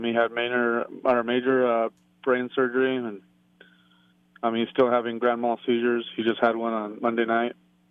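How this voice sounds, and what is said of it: Choked-up, emotional voice. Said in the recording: “I'm a little choked up”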